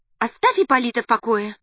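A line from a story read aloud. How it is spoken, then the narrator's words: Sharp scolding woman. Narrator (Russian): прикрикнула она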